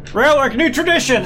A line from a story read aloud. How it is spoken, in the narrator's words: I yell